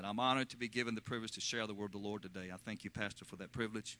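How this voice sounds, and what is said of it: Central Virginia Southern accent. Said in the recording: “If you're wondering where this accent comes from, I'm not an Okie... I'm from Virginia, born in Lynchburg, Virginia, from the central part of the state, and there's a distinct dialect that comes out of that part of our nation that has an old English connection to it”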